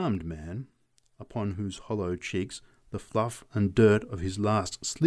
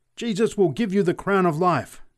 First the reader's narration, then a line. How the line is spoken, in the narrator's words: screamed the preacher exultantly